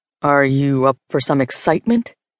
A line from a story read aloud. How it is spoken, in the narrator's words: he asks